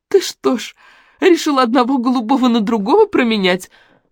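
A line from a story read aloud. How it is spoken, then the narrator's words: Shriek breaking off laughter. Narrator (Russian): взвизгнула наконец Лариса, обормав смех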